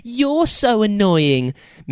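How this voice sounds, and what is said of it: Silly mocking mimicking voice. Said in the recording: “mimicked the sword in a silly voice”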